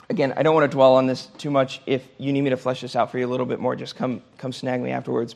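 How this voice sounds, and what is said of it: Strained, hoarse voice. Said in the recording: “Sorry, I am losing my voice.”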